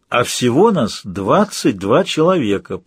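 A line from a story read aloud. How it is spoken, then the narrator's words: Summing up. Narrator (Russian): подытожил Нейт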